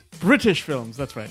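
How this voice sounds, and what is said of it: Put-on British accent. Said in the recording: “That was a wonderful accent”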